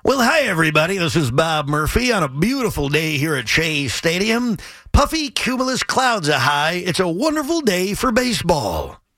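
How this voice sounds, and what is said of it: Imitates a baseball announcer's voice. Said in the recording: “my Bob imitation. I think it's not bad ... That's a great Bob Murphy.”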